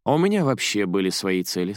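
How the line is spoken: Calm reply. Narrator (Russian): спокойно ответила Стенд

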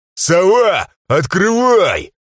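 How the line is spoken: Yelled. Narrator (Russian): Заорал я

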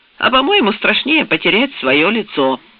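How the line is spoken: Plain. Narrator (Russian): сказал Эббот

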